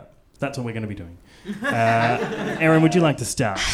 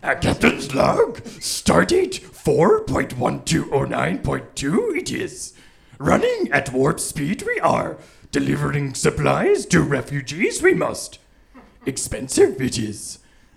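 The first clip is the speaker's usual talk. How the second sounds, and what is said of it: Terrible Yoda impression. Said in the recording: “this is my terrible impersonation of Yoda doing a captain's log”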